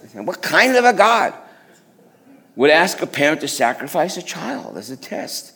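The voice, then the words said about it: Put-on Jewish accent. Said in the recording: “That deserves a Jewish accent.”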